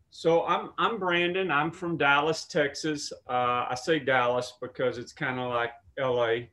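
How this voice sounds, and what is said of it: Strong Texas accent. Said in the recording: “I have a very strong accent”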